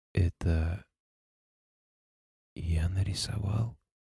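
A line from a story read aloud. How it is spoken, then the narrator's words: Husky adult male voice. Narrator (Russian): Голос вышел не писклявым, обычным, хрипловатым, мужским, 30-летним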